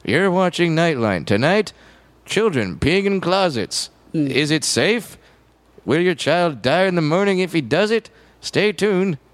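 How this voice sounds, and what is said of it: Ted Koppel impression, newscaster voice. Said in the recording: “can do a Ted Koppel impression”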